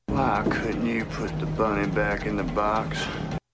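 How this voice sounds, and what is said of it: Nicolas Cage's put-on Alabama accent. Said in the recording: “Nicolas Cage traveled to Alabama to perfect his accent.”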